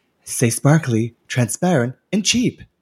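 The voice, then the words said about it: Imitates another person's voice. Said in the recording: “my impression of, of Crystal”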